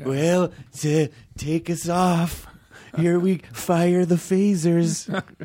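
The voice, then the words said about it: Ronald Reagan impression. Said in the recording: “Is that a good Reagan impersonation? ... No. ... Not even.”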